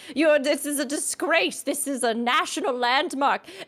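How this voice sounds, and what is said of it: Crabby, indignant character impression. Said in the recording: “that one guy who's so crabby ... that's my impression of Fusion”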